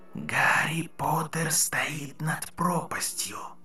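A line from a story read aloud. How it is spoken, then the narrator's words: Whisper close to ear. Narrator (Russian): прошептал голос почти ей в ухо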